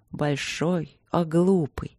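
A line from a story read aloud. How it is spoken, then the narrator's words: Soft, upset muttering. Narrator (Russian): бормотала государыня расстроенно и мягко, приложив ухо к широкой груди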